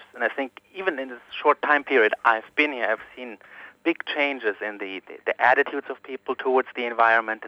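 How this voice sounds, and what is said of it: German accent. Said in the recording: “as my accent may tell you, I'm originally from Germany”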